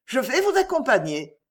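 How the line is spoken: Exclaimed. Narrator (French): s'écria Danielle

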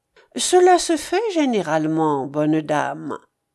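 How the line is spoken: Honeyed tone. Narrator (French): reprit-il d'un ton mielleux

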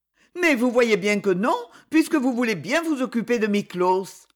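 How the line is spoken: Emotional protest. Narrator (French): dit-elle d'un ton de protestation émue

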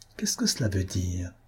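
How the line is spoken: Murmured. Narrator (French): murmura-t-il

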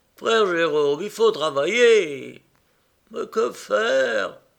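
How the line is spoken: Groaning, moaning. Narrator (French): gémit le frère Jérôme

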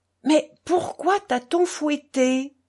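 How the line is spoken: Shouted. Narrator (French): hurla Kalganov

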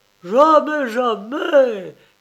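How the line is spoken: Shouted. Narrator (French): cria-t-il à Ludendorff

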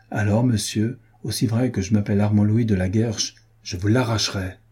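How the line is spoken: Exclaimed. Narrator (French): s'écria-t-il

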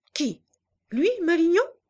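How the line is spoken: Surprised, offended cry. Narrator (French): cria-t-elle surprise et comme offensée

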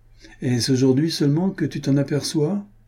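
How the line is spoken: Heavy sigh. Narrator (French): dit Renaud avec un gros soupir

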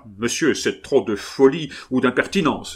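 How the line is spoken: Exclaimed. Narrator (French): s'écria Loredan

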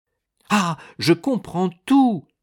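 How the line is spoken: Exclaiming. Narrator (French): s'écria Raphaël

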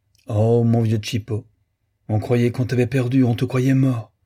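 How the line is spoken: Joyful wailing. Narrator (French): gémissait-elle avec gaieté

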